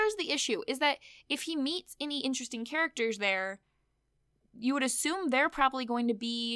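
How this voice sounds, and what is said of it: Usual voice. Nothing is said of it.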